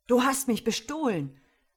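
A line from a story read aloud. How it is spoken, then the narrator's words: Indignant exclamation. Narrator (German): rief Bashir empört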